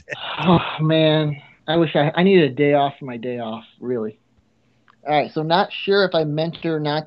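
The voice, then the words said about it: Tired, exhausted-sounding voice. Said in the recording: “You sound exhausted.”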